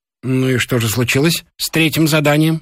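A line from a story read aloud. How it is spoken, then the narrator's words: Plain. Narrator (Russian): спросил профессор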